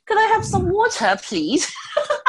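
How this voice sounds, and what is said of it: Put-on British accent. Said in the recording (Chinese): “我觉得英国腔就是好听啊，你就是不能说，你不能说 water，你要说 water。”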